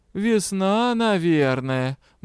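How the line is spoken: Meaningful drawl. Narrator (Russian): многозначительно протянул свекромонстр

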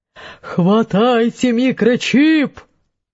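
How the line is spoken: Yelling leader. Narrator (Russian): заорал главный древний

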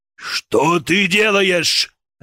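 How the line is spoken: Samurai barking. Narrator (Russian): рявкнул самурай

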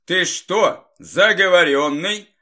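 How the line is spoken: Angry grumble. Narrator (Russian): зло пробурчал Игорь

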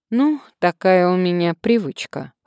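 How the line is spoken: Man's wry snort. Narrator (Russian): хмыкнул мужчина

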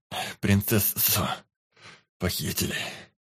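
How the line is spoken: Hoarse wheeze. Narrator (Russian): прохрипел он

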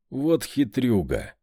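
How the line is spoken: Laughing. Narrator (Russian): Я рассмеялся

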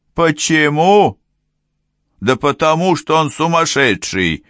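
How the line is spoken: Barked. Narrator (Russian): рявкнул начальник уголовного розыска

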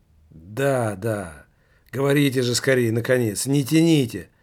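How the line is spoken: Impatient exclamation. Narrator (Russian): воскликнул Немаркетинг в страшном нетерпении

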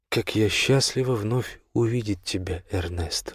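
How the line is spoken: Tender whisper. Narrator (Russian): ласково прошептала Сенбернарша

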